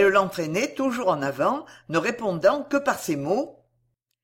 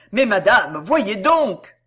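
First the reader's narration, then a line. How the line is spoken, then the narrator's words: Shouted. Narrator (French): cria-t-il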